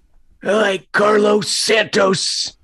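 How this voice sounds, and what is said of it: Poor imitation of another person's voice. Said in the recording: “That was my John Fox ... terrible impression ... you nailed it. A terrible impression.”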